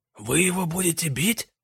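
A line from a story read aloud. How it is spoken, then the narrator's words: Whispered question. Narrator (Russian): Почему-то шепотом спросил Пузан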